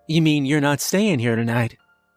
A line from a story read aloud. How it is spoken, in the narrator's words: he asked